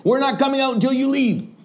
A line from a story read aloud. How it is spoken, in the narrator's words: One of the women shouted to him